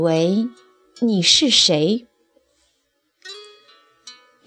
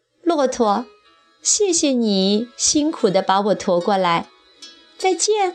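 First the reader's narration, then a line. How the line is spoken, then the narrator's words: Mocking. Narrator (Chinese): 苍鹰讥笑说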